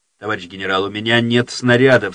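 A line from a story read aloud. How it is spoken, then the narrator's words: Plain. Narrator (Russian): сказал майор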